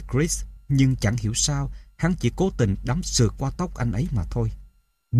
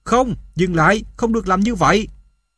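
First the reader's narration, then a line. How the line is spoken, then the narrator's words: Impulsive scream. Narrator (Vietnamese): Không chút suy nghĩ, tôi hét lên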